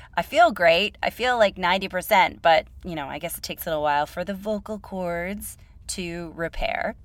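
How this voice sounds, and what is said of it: Slightly squeaky voice. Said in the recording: “my voice is still a little bit squeaky”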